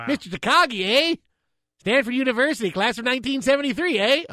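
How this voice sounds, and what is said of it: Alan Rickman voice with Canadian accent. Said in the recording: “He could play a young Alan Rickman ... Can he do the voice? ... I'm sure he would learn how to do it with a Canadian accent.”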